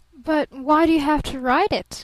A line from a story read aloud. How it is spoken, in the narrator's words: gasped Barton